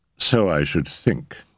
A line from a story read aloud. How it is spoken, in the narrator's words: said Mrs